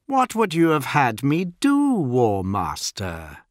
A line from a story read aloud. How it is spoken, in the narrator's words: smiled Fulgrim, being sure to twist his words with a sly, mocking tone